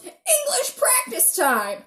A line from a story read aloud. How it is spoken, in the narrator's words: yells